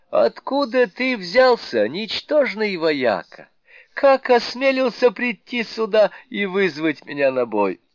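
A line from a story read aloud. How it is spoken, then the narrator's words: Laughing shout, great sage. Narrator (Russian): великий мудрец рассмеялся и крикнул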